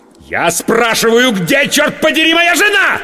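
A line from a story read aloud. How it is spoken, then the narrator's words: Losing control, yelling. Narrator (Russian): Сорвавшись, заорал я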